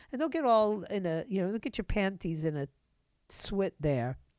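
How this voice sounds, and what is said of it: Put-on Hispanic accent. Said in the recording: “I can talk with a Hispanic accent if I want to. And I wanted to.”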